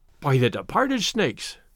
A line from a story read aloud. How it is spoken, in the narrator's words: exclaimed